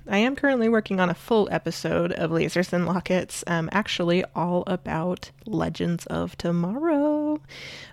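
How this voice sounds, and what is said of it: Sick, strained voice from a cold. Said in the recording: “as you can probably tell, my voice is a little shot because I have what I like to call the plague cold ... my sickly voice”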